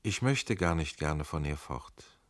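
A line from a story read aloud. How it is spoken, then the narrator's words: Softly spoken. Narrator (German): sagte sie leise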